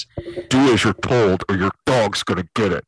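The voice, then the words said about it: Weird put-on voice. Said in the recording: “weird voice”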